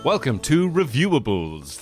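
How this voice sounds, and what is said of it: Exaggerated radio announcer voice. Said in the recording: “This is my new radio voice.”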